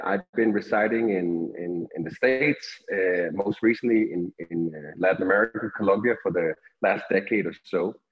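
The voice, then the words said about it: Slight Danish accent. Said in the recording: “I'm originally from Denmark, Europe, hence a little bit of the accent”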